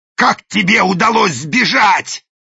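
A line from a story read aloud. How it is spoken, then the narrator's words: Growling. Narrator (Russian): зарычал даймё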